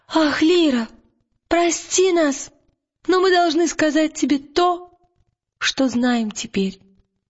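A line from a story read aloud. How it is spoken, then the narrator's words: Exclamation. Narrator (Russian): А Пантелеймон воскликнул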